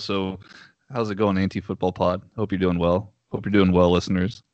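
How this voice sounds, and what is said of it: Southern US Texas accent. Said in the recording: “I hope my Southern accent doesn't throw anybody off. This is a very, very different kind of Southern”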